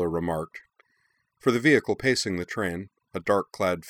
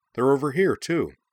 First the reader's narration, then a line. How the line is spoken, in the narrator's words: cried